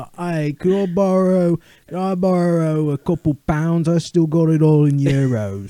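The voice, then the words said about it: Put-on Cockney English accent. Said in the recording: “the English accent ... if you were British. Hey, be a Cockney guy.”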